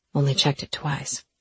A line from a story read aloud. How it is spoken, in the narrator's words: he whispered